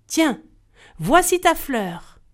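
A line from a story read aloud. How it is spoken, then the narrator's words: Fairy shouting. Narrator (French): la fée cria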